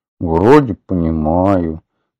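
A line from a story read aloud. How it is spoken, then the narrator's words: Grumbling mutter. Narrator (Russian): пробурчал Атхи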